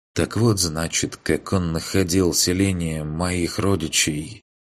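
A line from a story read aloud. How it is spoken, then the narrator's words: Quiet whisper, goddess. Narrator (Russian): Тихо прошептала богиня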